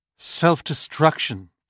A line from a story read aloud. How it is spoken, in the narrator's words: Frampton said grimly